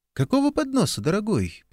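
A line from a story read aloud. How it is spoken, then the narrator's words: Cooing Oklahoma drawl. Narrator (Russian): проворковала Памела, растягивая слова на оклахомский манер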